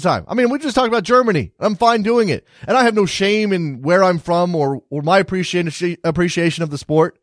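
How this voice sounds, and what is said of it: American accent. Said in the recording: “I'm an American soccer fan with an American accent”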